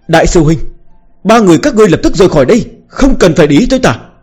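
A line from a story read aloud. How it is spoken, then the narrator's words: Urgent shout. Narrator (Vietnamese): giọng điệu cấp bách la lên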